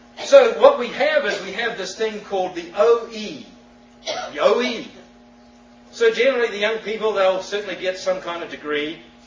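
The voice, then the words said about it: New Zealand accent. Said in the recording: “Some with peculiar accents ... I come from New Zealand. That's the twang.”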